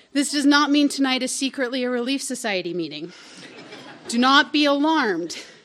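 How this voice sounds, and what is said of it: Utah accent. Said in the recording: “a very pregnant blonde woman with a Utah accent”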